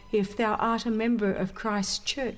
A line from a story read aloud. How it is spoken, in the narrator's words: he said